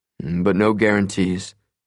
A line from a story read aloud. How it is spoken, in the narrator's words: he remarked dryly